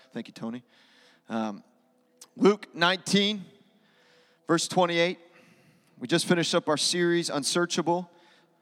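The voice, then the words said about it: Raspy, slightly hoarse voice. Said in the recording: “I'm feeling a little raspy of voice”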